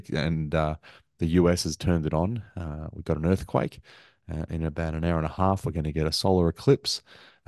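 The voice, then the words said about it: Tired, worn-out voice. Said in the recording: “as you can hear from my voice ... I'm pretty tired”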